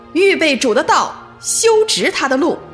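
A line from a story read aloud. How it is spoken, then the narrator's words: Loud crying out. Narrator (Chinese): 在犹太的旷野，约翰大声地呼喊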